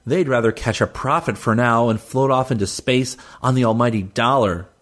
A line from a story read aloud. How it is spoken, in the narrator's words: she growled